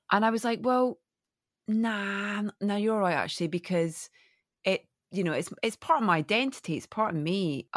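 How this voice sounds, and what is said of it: Scottish accent. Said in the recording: “coming from a tiny little fishing village in Scotland ... really constant negative feedback about my accent ... elocution lessons”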